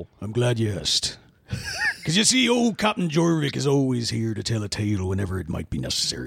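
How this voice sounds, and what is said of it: Put-on pirate-style West Country accent. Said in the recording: “Is that the right accent? ... a southwestern Somerset accent. He says it's akin to a pirate's accent”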